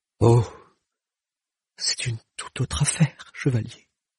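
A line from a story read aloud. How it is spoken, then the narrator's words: Faint young woman. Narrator (French): répondit faiblement la jeune fille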